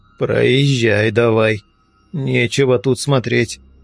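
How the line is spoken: Through clenched teeth. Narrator (Russian): процедил я сквозь зубы

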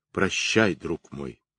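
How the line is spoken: Quiet. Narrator (Russian): проговорил тихо

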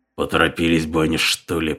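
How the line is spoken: Muttered. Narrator (Russian): пробормотал Талак

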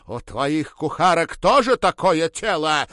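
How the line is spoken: Hateful shout. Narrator (Russian): выкрикнула она с ненавистью

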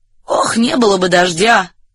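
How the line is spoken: Muttering. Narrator (Russian): пробормотал

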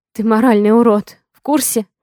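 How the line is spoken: Wheezy, hoarse. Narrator (Russian): Сиплю я

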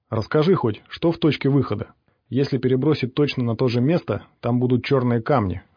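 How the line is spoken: Plain. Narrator (Russian): ответил Ворон

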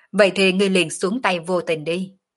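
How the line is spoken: Loud laughing. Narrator (Vietnamese): Sở Dương cười to

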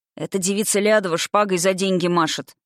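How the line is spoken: Snorting, smirking. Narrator (Russian): хмыкнул Сёма

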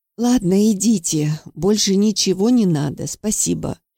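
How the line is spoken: Resigned sigh. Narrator (Russian): вздохнула я, понимая, что большего мне от нее не добиться

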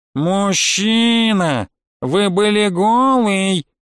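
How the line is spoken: Nasal admonishing. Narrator (Russian): гнусаво урезонила она

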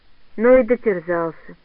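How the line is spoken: Pitying sigh. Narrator (Russian): вздохнула Андрониха, будто пожалела Пелюгина, бывшего председателя

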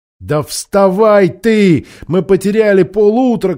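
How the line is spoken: Shouting. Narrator (Russian): кричала Аравита

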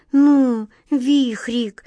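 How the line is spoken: Pleading. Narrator (Russian): взмолилась Глазастик

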